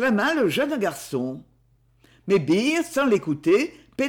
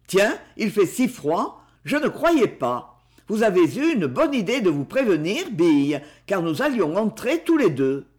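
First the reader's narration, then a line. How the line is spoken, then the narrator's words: Natural surprised tone. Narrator (French): il dit, d'un ton de surprise très naturel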